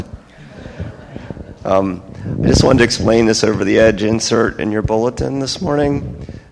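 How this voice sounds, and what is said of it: Hoarse, nearly lost voice. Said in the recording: “I was at the game last night and my voice is gone.”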